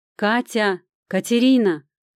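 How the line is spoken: Loud calling. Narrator (Russian): громко позвала я

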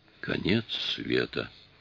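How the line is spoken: Moaning. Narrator (Russian): простонал Массакр

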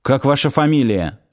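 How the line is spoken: Curt, clipped. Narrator (Russian): отрывисто бросил Сошин

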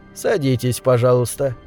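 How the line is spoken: Calm. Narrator (Russian): спокойно сказал он

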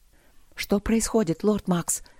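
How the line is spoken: Breathless whisper. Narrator (Russian): прошептала Алина, тяжело дыша

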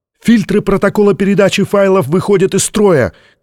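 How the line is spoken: Shouting. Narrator (Russian): крикнул кто-то из технического персонала

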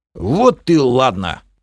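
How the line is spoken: Pleased snort. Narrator (Russian): хмыкнул довольный Бом

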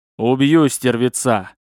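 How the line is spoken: Growling behind gates. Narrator (Russian): Раздалось рычание за воротами

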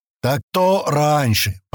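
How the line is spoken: Booming drone. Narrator (Russian): прогудел

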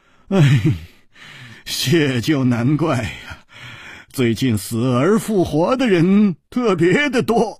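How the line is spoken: Smiling. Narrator (Chinese): 笑着说

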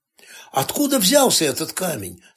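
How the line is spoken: Plain. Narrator (Russian): спросил Маркби

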